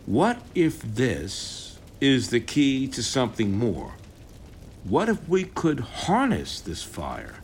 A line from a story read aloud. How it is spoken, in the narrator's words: Adam, his voice lowering, intrigued, says